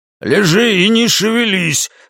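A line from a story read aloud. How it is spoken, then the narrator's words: Man's bark. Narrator (Russian): рявкнул мужчина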